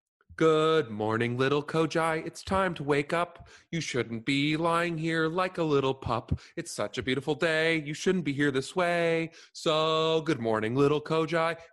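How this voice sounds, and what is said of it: High-pitched falsetto singing. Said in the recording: “I sing in a falsetto ... It doesn't sound good ... I'll sing in a high-pitched voice”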